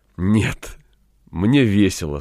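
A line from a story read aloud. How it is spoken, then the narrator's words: Said with deep breath. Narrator (Russian): сказала вздохнув всей грудью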